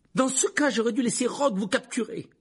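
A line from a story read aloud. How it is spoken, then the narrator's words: Exclaiming. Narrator (French): s'exclama Harry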